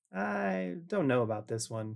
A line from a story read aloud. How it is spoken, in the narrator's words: Noah chuckled